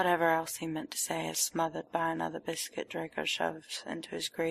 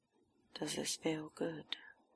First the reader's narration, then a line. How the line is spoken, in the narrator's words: Draco murmurs, so close to Potter